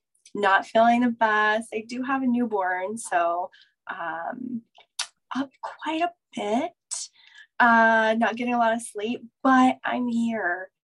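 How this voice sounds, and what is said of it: Hoarse voice. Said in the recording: “I lost my voice. I don't normally sound like this. I'm hoarse. I have a cold.”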